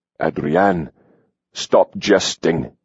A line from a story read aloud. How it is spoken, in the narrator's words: he growled